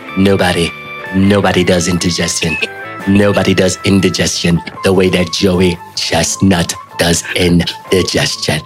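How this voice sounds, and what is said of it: Imitates another person's voice. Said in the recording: “give my Trump impression”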